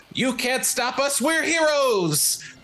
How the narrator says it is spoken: he charges his voice with uh, all sorts of arcane energy

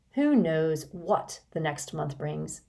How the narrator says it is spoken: asked Mr

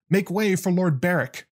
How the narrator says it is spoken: the rider shouted

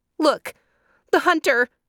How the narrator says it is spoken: cried a dove

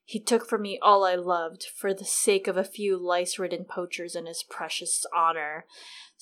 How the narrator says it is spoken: Ser Jorah said bitterly

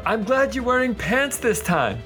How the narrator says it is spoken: Pender will yell out

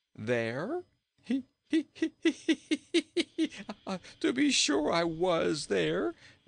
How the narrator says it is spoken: laughed Rinkitink

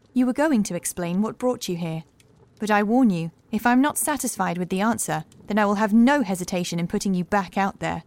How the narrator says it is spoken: she said suddenly, in a calm but assured voice

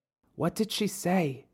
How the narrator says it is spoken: Caleb asked in a whisper

